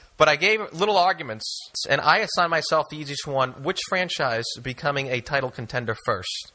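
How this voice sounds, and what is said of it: Boston accent like John F. Kennedy. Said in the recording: “Your accent gives it away ... as long as I sound like John F. Kennedy”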